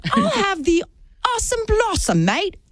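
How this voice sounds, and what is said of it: Put-on foreign accent. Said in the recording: “You don't need an accent to order it.”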